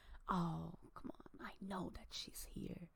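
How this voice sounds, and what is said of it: Whispering voice. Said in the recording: “I'm whispering.”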